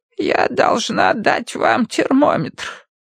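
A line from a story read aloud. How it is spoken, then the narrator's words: Creaky voice. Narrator (Russian): проскрипела она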